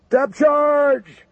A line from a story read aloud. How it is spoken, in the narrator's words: Booker shouted